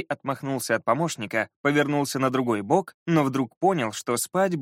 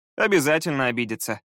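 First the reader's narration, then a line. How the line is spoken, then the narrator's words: Laughing. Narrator (Russian): рассмеялся Скай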